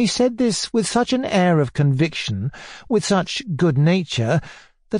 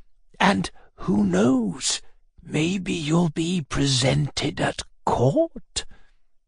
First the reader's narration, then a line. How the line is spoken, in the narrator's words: he added in a half-whisper